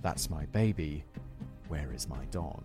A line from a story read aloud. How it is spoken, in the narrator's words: Playing up a fake emotional distress, whispering